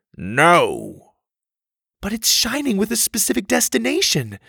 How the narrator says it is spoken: Susie pleaded

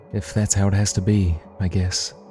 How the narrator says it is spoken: Harrison sighed

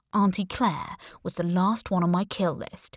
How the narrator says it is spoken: he said

